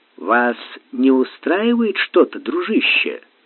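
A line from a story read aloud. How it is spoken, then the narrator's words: Calm captain asking. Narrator (Russian): спокойно спросил капитан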